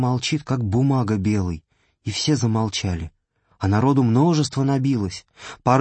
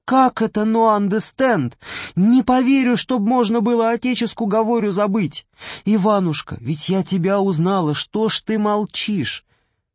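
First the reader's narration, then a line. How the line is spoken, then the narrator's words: Crying out, weeping. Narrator (Russian): Аграфена закричала с плачем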